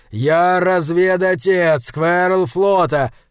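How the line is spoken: Shouted in someone's face. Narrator (Russian): крикнул он Меджелю в лицо

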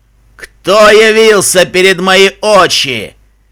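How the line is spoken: Sudden thunderous roar. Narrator (Russian): Проревел вдруг громогласный голос

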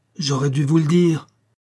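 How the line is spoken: Impatient exclamation. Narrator (French): s'écria-t-elle avec impatience

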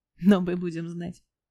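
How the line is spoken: Laughing. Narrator (Russian): засмеялся Лютик

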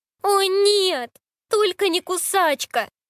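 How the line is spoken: Moaning. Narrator (Russian): простонала она

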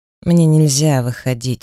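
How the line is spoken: Tired man. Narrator (Russian): устало сообщил мужчина

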